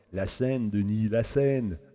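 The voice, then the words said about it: Put-on French accent. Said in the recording (French): “je l'entends me dire ça avec son accent français.”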